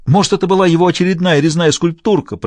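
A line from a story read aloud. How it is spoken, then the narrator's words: Squealing. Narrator (Russian): провизжал Оливье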